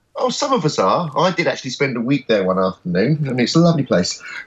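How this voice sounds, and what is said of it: London accent. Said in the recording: “You sound to me like you're in London. Through your accent.”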